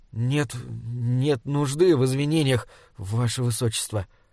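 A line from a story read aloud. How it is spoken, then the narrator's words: Stammering. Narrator (Russian): запинаясь, сказал Саймон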